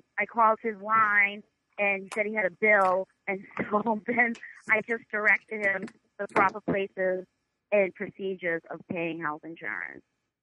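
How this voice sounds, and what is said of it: New York accent. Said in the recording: “your accent is real or if it's a bit ... you come in with your New York. So your accent is 100% real ... that fucking voice”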